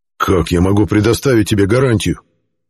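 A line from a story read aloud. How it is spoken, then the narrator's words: Growling. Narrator (Russian): Зарычал Геррант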